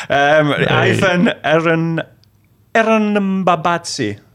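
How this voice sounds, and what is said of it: Put-on Italian accent. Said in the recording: “why did I say that with an Italian accent?”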